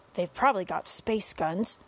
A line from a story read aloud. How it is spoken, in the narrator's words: muttered the chief of police